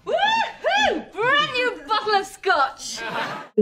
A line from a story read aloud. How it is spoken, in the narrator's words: emotionlessly, shout